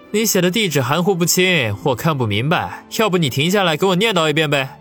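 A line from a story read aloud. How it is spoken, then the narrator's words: Loud. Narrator (Chinese): 王宇大声的说道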